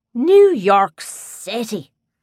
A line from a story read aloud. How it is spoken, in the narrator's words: an old man exclaimed